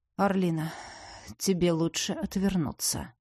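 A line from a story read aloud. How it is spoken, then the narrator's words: Weary sigh. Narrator (Russian): устало вздохнул Иден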